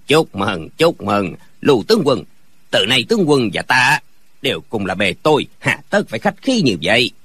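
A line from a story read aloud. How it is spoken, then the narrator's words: Smiling. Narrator (Vietnamese): Viên quan mỉm cười nói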